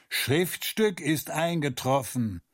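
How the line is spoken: Guard calling out. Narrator (German): der eine Wärter kam herein und rief

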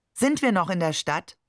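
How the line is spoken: Plain. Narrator (German): fragte

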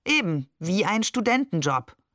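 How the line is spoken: Plain. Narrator (German): sagte Barbe

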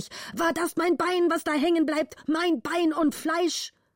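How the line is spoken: Angry shouting. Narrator (German): schrie der Vater zornig

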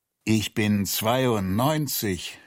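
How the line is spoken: Groaning. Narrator (German): stöhnte er

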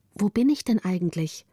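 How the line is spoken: Plain question. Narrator (German): fragte Gritta

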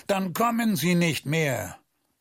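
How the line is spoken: Roaring at someone. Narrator (German): brüllte an

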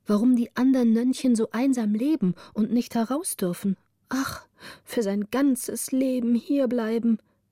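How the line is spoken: Sighing speech. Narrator (German): sagte das eine oder andere seufzend

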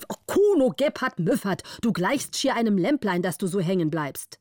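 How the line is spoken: Angry call. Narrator (German): Der Graf war zornig und rief

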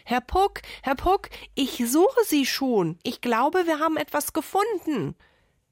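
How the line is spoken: Loud female call. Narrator (German): rief sie ihm laut entgegen

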